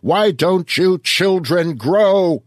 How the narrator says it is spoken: shrieked

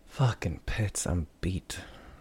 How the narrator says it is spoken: sighed out

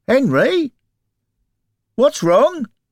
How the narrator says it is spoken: Bill called out

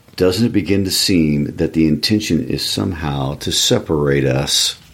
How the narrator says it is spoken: his voice was very quiet

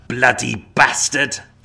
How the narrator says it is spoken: feeling his rage rise once again, Varna venomously spat the words

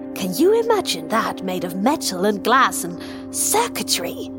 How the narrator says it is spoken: He almost spat the last word

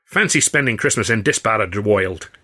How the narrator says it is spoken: he grumbled

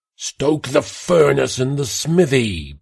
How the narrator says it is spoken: Pastor Gilliam shouted

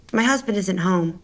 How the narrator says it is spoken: she said flatly

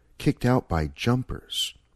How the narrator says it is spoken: he said softly

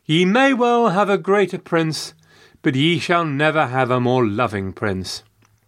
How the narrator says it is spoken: Elizabeth responded, the second time saying warmly

